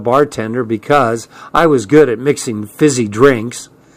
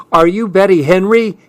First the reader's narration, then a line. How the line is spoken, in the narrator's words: He yelled